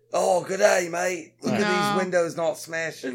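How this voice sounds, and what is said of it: Put-on Australian accent. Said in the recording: “That's probably Australian.”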